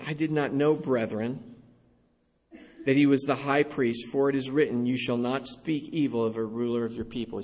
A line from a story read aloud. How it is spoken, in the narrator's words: He says